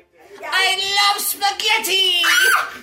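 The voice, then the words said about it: Papyrus character voice. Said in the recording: “I play the voice of Papyrus.”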